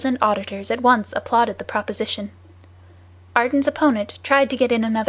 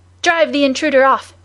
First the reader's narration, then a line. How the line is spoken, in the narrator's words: shouted others